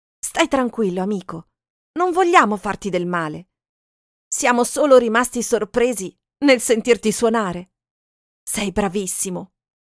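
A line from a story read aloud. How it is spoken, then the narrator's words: Calm voice. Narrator (Italian): Mark disse con voce calma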